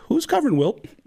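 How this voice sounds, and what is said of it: Imitates a basketball coach's voice. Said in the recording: “my impression of the coach of the opposing team during halftime”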